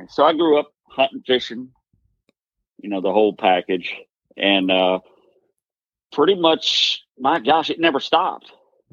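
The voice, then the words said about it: Southern American accent. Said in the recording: “Everybody says I got a southern accent. I don't hear it, but everybody says I do.”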